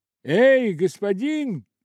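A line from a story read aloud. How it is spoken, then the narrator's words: Shouting in old tone. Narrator (Russian): крикнул Скрудж, попадая по возможности верно в свой прежний тон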